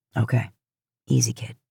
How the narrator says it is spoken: Bobby said, in that same patient tone

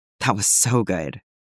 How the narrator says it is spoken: Tim muttered into his mouth

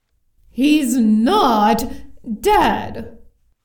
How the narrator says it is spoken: growled the castle, with the annoyance of someone who felt they weren't being listened to properly at all

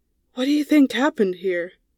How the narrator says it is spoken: Phineas's voice was barely above a whisper

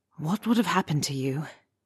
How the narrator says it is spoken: Harry asks softly

